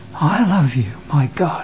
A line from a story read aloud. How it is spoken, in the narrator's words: John whispers